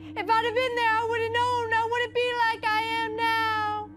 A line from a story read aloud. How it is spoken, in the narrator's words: said in a high voice